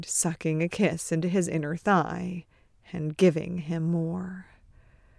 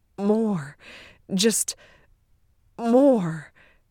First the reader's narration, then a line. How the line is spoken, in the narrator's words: Ted moaning